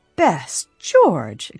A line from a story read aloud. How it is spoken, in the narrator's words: exclaimed Elizabeth Rawley